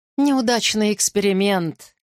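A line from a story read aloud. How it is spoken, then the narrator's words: Explaining with odd chuckle. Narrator (Russian): пояснил он, странно хохотнув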